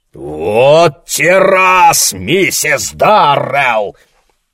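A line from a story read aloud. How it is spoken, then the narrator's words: Angry roar. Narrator (Russian): проревел он багровее от гнева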